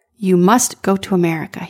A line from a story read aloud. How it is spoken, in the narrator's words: said